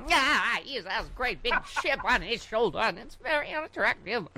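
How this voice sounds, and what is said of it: Imitates another person's voice. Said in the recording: “I do my Katharine Hepburn ... That's a good Kate.”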